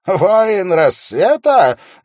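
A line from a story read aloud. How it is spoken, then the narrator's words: Mocking exclamation. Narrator (Russian): насмешливо воскликнул он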